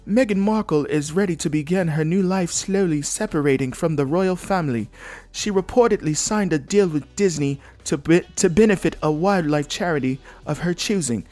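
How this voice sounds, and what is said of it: Poor put-on British accent. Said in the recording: “British accent. ... Shitty accent.”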